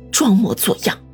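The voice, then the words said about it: Quiet muttering. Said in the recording (Chinese): “小声的嘀咕了一句”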